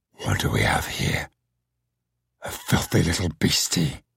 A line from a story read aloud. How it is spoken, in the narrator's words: In my head, a voice growled